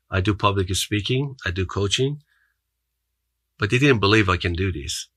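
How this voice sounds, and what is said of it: Non-native English accent. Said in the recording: “I speak 5 languages. I have accent, as you can hear it.”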